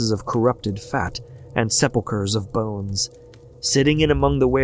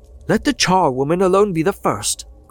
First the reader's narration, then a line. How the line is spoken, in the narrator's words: cried she